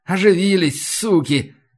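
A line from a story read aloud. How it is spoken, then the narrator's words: Angry snarl. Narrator (Russian): зло ощерился прапор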